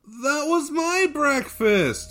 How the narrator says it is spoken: whined Kolya

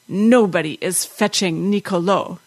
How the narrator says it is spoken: said, her voice husky with rage

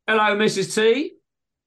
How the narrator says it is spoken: said, too loudly and too informally

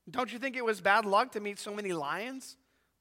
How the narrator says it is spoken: said Shasta

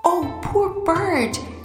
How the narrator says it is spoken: cried

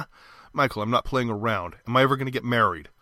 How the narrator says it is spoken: Michael sighed luxuriously

